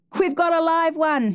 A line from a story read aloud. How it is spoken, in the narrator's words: he screamed to Judd